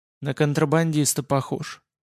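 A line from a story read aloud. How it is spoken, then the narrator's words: Quiet statement. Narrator (Russian): тихо констатировала подруга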